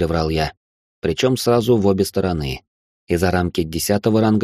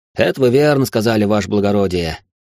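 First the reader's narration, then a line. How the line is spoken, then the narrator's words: Snort. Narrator (Russian): хмыкнул Корнет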